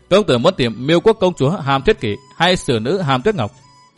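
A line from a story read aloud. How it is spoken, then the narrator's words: Smiling. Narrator (Vietnamese): mỉm cười nói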